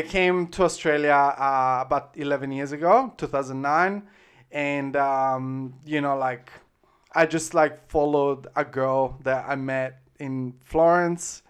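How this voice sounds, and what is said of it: Italian accent. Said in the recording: “so you're originally from Italy? ... Yeah, I'm from Italy. I just assume by the accent.”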